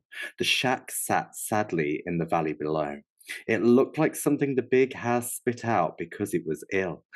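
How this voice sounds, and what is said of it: Storybook reading like elementary school teacher. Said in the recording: “where did that voice come from? You literally read that shit like a fucking elementary school teacher”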